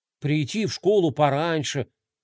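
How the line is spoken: Displeased muttering under breath. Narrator (Russian): недовольно бормотал Рома себе под нос

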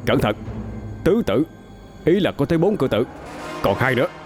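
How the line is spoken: Sharp shout. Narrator (Vietnamese): cậu quát lên

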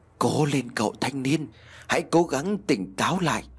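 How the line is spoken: Faint urging voice. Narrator (Vietnamese): Bên tai khẽ văng vẳng tiếng nói như thúc giục

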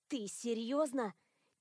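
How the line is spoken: Quiet question. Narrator (Russian): Тихо поинтересовалась Зейна, наклонившись к моему уху

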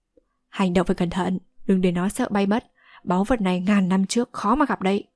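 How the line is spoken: Softly spoken. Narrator (Vietnamese): Tôn Thất khẽ nói

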